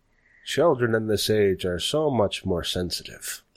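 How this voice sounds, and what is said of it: Put-on accent that keeps shifting. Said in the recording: “my accent ... It's changed like 7 times in the sentence ... I was channeling Nixon for a little bit there.”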